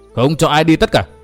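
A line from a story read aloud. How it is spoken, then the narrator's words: Loud shout. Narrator (Vietnamese): Tông Đào hét lớn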